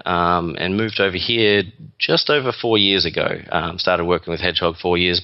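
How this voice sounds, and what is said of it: Australian accent. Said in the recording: “you're not a native New Yorker ... This isn't your typical Manhattan accent. This is an Australian accent.”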